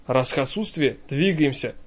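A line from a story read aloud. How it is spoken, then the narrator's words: Whisper passed along. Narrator (Russian): шепотом прокатывается по цепочке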